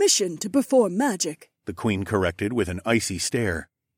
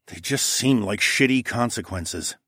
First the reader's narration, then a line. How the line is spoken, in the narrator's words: I muttered